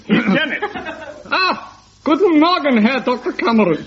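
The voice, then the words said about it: Put-on German accent. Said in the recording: “read your extract from Dr. Finley's casebook in a German accent”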